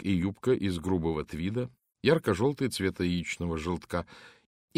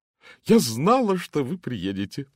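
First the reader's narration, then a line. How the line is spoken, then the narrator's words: Joyful declaration. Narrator (Russian): радостно заявила миссис Оливер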